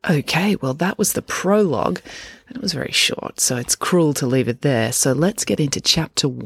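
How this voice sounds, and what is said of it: Usual voice. Nothing is said of it.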